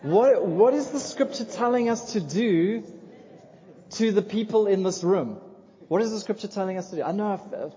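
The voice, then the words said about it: Talks like a preschool teacher. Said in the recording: “I sound like a preschool teacher”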